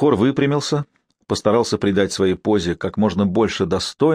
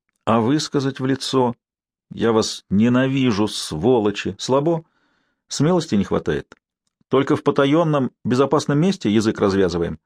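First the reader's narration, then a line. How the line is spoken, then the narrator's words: Very friendly question. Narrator (Russian): Сварог самым дружелюбным тоном спросил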